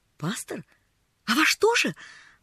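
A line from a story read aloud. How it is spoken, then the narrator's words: Exclaimed. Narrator (Russian): воскликнула Полиана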